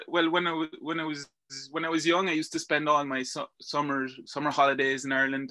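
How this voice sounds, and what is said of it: Strong Irish accent. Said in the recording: “you have the most Irish accent. You have a stronger Irish accent than me.”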